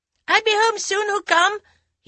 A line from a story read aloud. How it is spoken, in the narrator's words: shouted, running after the car